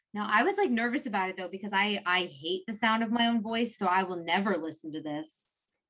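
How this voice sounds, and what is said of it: High-pitched girlish voice. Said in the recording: “my voice sounds like if you called someone, you'd probably be like, "Oh, is your mommy home?" Like, it's just like an annoying little girl voice... My voice sounds like nails on a chalkboard.”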